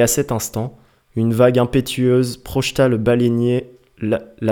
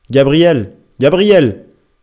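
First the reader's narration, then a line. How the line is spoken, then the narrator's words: Exclaimed. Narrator (French): s'exclama le capitaine Mayou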